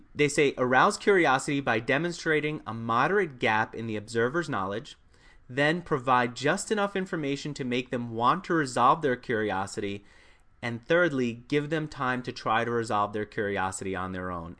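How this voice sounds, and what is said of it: Slightly congested voice. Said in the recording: “I've got a little bit of a cold”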